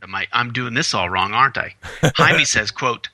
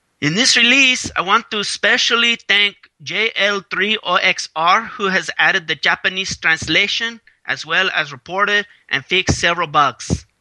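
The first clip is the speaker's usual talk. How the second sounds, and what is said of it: Put-on Mexican Spanish accent. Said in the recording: “that sounded like really Mexico, and he's from Spain.”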